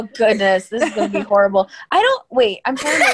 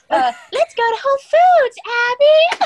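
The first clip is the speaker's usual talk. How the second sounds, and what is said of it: Imitates a character's voice. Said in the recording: “your best Bingo Bronson impersonation”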